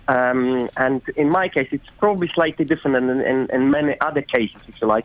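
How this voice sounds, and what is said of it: Foreign-accented English. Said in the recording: “I'm guessing from your accent and your name that you may possibly be a migrant yourself.”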